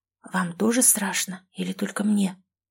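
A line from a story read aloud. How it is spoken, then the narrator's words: Whispered question. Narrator (Russian): шепотом спросила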